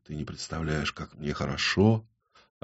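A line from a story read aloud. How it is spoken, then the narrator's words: Whispered. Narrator (Russian): прошептал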